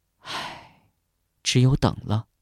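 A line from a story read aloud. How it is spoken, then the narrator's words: Sighing. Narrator (Chinese): 星星叹了一口气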